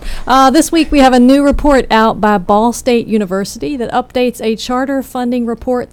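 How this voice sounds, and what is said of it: Southern American accent. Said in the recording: “listen to research studies in a southern accent like you have”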